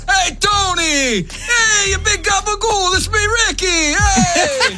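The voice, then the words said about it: New Jersey Sopranos-style impression. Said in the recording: “I thought Ricky would say The Sopranos because she's from New Jersey... do my impression... Actually really good”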